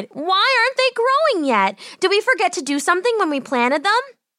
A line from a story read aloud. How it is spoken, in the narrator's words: she cried